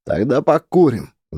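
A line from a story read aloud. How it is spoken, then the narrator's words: Loud snuffly sniff. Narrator (Russian): громко шмыкает второй сопливым носом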